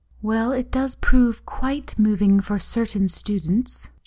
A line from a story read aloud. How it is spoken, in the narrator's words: she murmured smugly